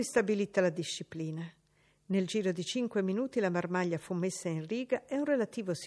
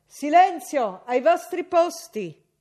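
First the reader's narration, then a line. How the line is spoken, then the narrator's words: Shouted. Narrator (Italian): La Miller gridò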